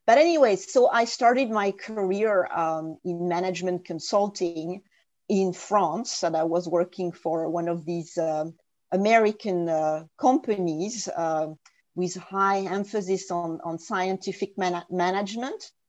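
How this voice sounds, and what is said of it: French accent in English. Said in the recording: “as everybody can hear from my accent, I was born and raised in France and didn't get to learn English until my teenage years”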